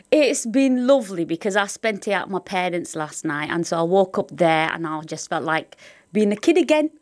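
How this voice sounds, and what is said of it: Northern English accent. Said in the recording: “does sound very northern.”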